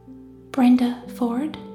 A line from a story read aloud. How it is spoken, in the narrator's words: the whisper came